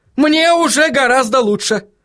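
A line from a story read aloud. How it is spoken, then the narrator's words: Yelling. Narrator (Russian): заорал он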